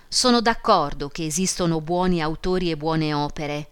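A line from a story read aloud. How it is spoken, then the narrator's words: Plain. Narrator (Italian): disse il curato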